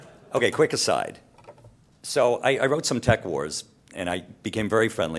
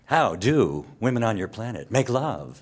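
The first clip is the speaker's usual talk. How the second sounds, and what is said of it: Kevin Pollak's William Shatner impression. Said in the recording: “That was not a Shatner impersonation. That was an impersonation of Kevin Pollak doing Bill Shatner.”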